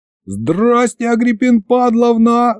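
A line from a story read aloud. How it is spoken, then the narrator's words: Yell. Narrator (Russian): завопил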